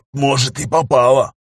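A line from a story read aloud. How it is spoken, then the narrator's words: Hoarse rasp, spitting blood. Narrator (Russian): сплевывая кровь, прохрипел Бестужев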